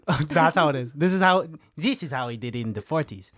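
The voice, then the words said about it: Bad put-on German accent. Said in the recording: “Terrible German accent.”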